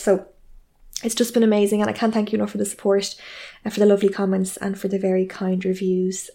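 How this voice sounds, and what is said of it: Fast-paced Irish accent. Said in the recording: “my voice is too fast and anxiety inducing ... my Irish brogue ... We do talk quite fast here”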